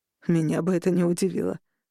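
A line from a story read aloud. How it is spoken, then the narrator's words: Snort. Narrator (Russian): хмыкнул Эдвард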